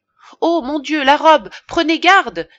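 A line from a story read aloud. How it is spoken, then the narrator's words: Exclaiming. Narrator (French): s'écria Madame Lefrançois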